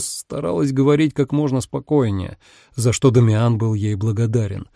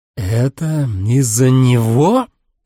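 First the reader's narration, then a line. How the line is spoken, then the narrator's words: Growled. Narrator (Russian): Последнее слово Энцо прорычал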